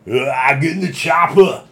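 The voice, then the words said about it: Poor impression of an action-star accent. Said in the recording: “my terrible Arnold Schwarzenegger impersonation.”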